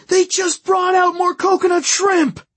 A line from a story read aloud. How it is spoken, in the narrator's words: running back to the table to scream